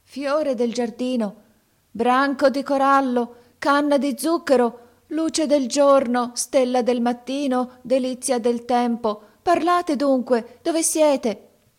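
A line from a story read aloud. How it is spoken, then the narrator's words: Startling shout. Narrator (Italian): gridò con voce che fece trasalire Canem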